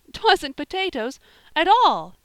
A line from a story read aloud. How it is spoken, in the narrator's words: said Polly, with a little gasp